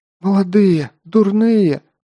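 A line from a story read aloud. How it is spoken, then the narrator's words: Tearful hoarse woman. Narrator (Russian): сквозь слезы прохрипела женщина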